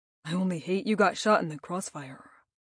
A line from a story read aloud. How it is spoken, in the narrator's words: he says with a reluctant sigh